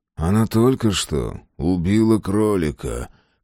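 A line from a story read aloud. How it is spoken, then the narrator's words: Hissed from mouth corner. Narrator (Russian): прошипел углом рта Фрейзер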